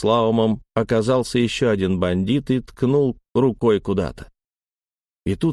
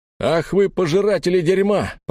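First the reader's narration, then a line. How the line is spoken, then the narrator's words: Father's booming voice from above. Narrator (Russian): прогремел сверху голос отца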